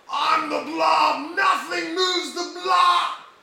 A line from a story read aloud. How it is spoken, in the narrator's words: he yells out